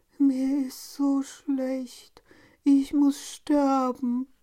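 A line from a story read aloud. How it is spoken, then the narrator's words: Groaning. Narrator (German): stöhnte er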